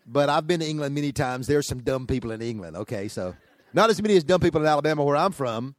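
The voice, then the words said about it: Fast speech, Southern US accent. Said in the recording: “talks really fast with a hick accent”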